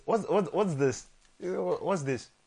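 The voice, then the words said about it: Put-on Portuguese accent. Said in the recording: “Is that his Portuguese accent? I like that.”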